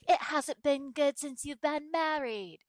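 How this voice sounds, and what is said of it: Put-on English accent. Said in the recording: “That's my really great English accent.”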